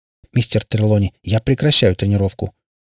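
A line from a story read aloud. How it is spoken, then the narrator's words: Decisive tone. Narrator (Russian): решительным тоном сказала она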